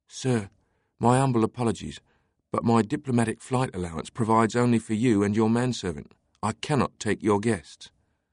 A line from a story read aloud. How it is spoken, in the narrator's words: whispered